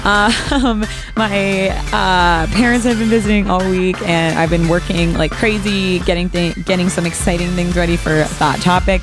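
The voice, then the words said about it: Slightly raspy voice. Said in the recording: “my voice sounds a little raspy ... It's been a long week ... your girl's feeling tired”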